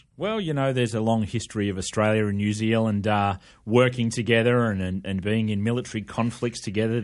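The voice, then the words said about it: Australian accent. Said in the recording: “Is it Australian or New Zealand accent? ... No, it's the Australian accent. You hear the tones of the Australian through the microphone. ... I know you think you sound American, but you don't. It's a lovely sound”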